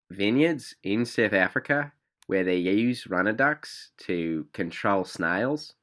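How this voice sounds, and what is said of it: Poor put-on South African accent. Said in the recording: “That's a terrible South African accent. ... that just sounds like a uh, New Zealander who's um, drunk.”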